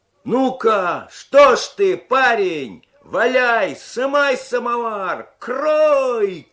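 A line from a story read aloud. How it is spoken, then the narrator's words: Onlookers shouting from behind. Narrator (Russian): кричали за спиной любопытные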